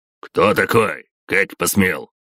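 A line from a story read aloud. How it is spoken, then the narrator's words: Gruff bark. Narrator (Russian): гаркнул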